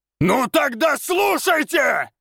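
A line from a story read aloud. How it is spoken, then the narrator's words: Very loud echoing yell. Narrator (Russian): Завопил он так громко, что его голос эхом прокатился по пустырю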